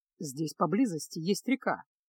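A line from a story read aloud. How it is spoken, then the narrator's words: Calm. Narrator (Russian): спокойно произнес Кайл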